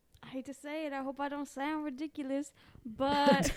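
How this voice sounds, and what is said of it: Ridiculous-sounding put-on accent. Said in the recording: “You sound ridiculous with that accent.”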